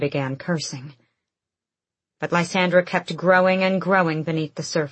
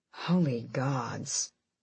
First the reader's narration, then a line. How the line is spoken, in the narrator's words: Fenris muttered